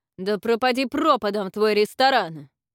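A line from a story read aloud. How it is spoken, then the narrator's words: Angry shout. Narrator (Russian): Разразившись гневной тирадой, он крикнул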